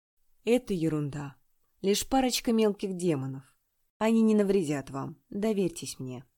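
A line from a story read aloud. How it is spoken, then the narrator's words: Gentle, tender. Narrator (Russian): Он ласково произнес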